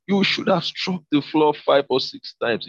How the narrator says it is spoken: he exclaimed

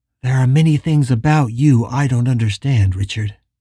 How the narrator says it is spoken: sighed and said

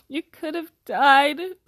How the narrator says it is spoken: sobbed Hagrid

